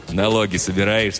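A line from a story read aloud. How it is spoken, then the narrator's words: Plain question. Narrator (Russian): спросил жихарь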